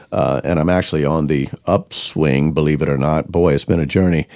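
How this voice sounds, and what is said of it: Voice sounds like a cold. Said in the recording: “you can tell that I have got a little bit of a cold.”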